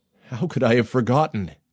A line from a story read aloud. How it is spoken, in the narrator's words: He gasped